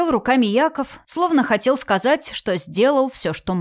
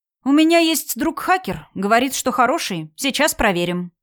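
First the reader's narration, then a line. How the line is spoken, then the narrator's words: Plain. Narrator (Russian): сказал Евгений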